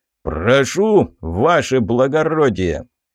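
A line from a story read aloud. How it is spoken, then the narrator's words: Loud bass voice. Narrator (Russian): громким басом произнес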